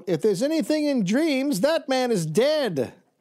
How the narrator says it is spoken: An old lady called out

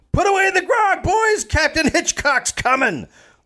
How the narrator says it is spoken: Davis shouted

